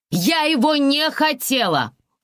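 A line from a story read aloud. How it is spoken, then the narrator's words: Female yelling at full volume. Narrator (Russian): заорала я, что есть мочи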